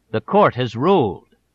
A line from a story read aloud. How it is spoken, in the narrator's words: the judge said firmly